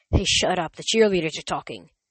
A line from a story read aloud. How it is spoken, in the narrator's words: Some guy behind us whispered